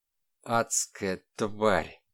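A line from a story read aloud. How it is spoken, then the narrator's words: Gurgling wheeze. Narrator (Russian): булькающим голосом просипел человек в черном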